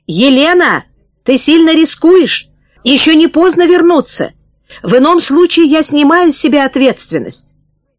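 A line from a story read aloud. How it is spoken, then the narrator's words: Shout after someone. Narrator (Russian): крикнул вслед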